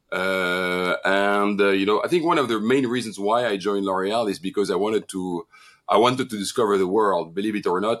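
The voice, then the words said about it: French accent in English. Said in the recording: “I have a French accent when I speak English”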